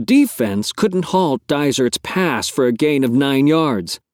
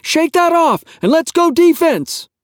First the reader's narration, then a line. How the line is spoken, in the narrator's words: Karn shouted from the sidelines